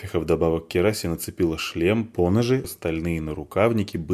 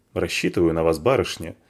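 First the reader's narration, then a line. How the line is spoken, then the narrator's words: Snorting. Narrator (Russian): фыркнула Спичка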